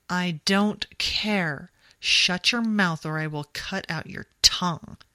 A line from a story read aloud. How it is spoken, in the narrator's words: he spat